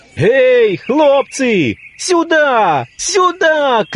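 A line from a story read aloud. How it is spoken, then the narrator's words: Shouting. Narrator (Russian): кричал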